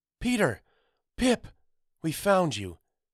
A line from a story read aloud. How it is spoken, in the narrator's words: a muffled voice cried out above the din